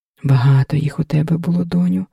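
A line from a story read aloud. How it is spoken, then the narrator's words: Reproachful sigh. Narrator (Ukrainian): докірливо зітхнула Лоська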